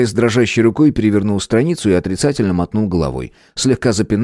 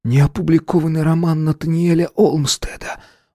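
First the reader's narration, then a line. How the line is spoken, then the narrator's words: Breathed out. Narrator (Russian): выдохнул Эдди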